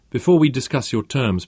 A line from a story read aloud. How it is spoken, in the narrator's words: Peter said